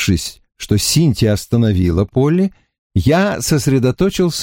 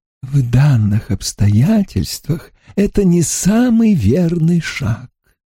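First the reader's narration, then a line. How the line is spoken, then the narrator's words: Ingratiating, sickly-sweet voice. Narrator (Russian): выговорил он таким вкрадчивым, приторным голосом, что хотелось его удавить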